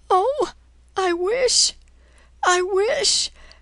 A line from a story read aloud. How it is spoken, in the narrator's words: Her sobs stopped her